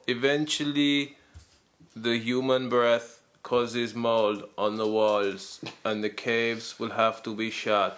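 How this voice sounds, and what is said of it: Werner Herzog impression. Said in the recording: “That's a good impression of Werner Herzog. It's getting better and better.”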